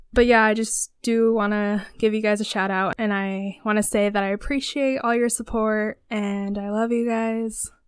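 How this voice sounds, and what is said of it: Sick-sounding voice. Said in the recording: “I think you guys can all hear it in my voice. ... I have been under the weather”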